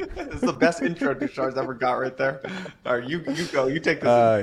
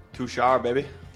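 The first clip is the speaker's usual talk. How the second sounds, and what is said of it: Odd put-on accent. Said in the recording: “I don't know what is up with that accent. Never do that again.”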